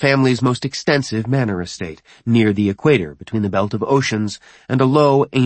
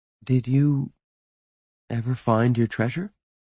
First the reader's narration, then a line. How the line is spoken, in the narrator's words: she asked gently